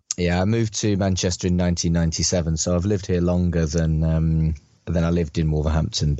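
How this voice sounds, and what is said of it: West Midlands English accent. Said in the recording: “From the sounds of it, you're West Midlands. You're from the West Midlands. That accent sounds familiar.”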